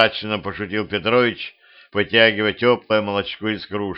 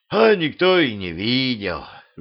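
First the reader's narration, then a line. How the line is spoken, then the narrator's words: Village elder sighing. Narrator (Russian): вздохнул староста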